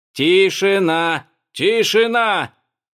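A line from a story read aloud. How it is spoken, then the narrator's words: Furious old man, megaphone shouting. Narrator (Russian): Старый злыдень размахивал громкоговорителем и кричал во все горло, вне себя от злости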